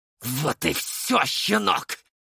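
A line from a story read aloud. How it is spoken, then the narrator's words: Hateful hiss. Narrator (Russian): прошипел он мне в лицо, сверля взглядом полным ненависти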